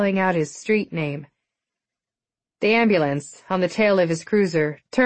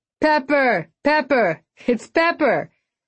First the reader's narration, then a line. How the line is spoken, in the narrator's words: The crowd loved his entrance and began yelling